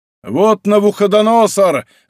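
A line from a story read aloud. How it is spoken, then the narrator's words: Old soldier shouting. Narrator (Russian): закричал один из кирасиров Кромвеля, старый пуританин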